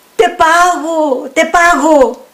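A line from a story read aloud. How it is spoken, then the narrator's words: Man shouting. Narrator (Spanish): gritó el hombre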